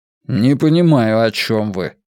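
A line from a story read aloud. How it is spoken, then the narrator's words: Angry objection. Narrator (Russian): сердито возразил доктор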